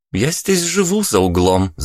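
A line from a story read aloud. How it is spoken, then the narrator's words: Ringing laugh. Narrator (Russian): звонко рассмеялась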